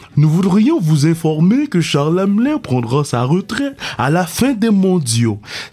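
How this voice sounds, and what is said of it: Poor imitation of another person's voice. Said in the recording (French): “C'était mon imitation shit de, de, Paul de Pierre Bruno. ... L'imitation était senti maillasse ... D'abord que l'imitation était shit.”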